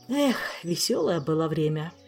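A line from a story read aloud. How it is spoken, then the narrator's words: Nostalgic sigh. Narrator (Russian): ностальгически вздохнул Кантор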